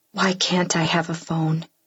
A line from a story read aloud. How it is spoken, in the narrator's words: whisper